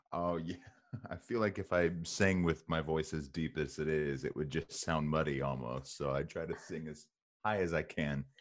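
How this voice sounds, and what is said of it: Deep speaking voice with accent. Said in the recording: “I love your accent. ... your deep voice”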